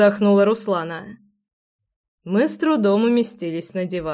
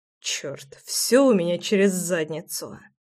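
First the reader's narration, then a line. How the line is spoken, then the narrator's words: Muttered. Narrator (Russian): пробормотал я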